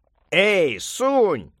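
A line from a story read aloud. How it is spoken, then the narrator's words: Shouting. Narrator (Russian): крикнул, наконец, волшебник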